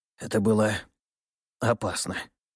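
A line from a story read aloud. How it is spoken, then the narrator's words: Exhaled words. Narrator (Russian): выдохнул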